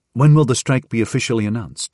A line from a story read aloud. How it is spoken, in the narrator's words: he asked